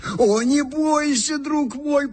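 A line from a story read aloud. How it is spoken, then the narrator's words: Brave show-off shout. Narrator (Russian): прокричал нам вслед Иван Матвеевич, приятно храбрясь перед своей супругою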